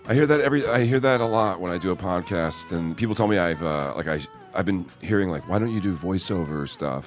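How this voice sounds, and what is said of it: Deep, resonant radio voice. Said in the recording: “such a good, deep radio voice”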